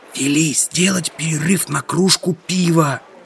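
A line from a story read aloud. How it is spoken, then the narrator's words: Whisper. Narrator (Russian): шепнул я Горбонже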